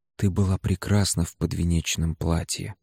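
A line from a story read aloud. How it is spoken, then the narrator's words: Whispered. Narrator (Russian): сказал я шепотом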